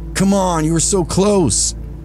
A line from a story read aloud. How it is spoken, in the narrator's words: another voice hollered